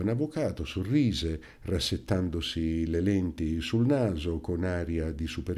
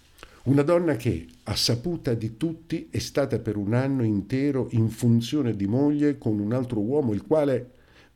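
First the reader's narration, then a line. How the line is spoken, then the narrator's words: Angry exclamation. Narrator (Italian): esclamai irosamente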